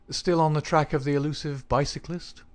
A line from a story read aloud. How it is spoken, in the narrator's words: Holmes asked cheerfully